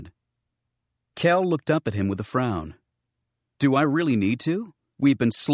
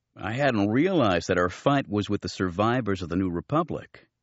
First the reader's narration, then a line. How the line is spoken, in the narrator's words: said Kip Duren